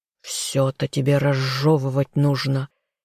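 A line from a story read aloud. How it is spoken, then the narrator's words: Displeased hiss. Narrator (Russian): недовольно прошипел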